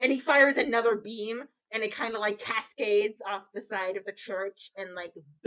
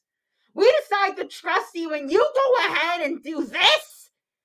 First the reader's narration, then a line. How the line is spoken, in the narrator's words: Hoyt once again shouts